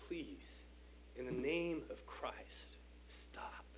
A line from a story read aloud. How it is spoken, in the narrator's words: Telemachus weakly cried out